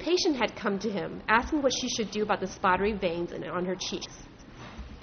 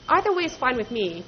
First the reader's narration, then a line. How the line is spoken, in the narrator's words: Ted would say in his impatient voice